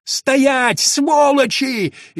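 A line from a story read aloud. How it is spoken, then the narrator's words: Frantic panicked yell. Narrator (Russian): истошно заорал растерявшийся начальник караула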